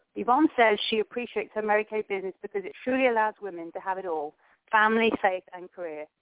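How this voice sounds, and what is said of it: Noticeable foreign accent. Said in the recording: “I love your accent. I agree with Cindy. I can hear you talk all day.”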